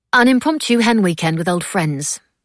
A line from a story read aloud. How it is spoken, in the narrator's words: Mab said brightly